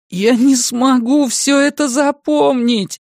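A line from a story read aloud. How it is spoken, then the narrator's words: Groaning. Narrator (Russian): застонал Том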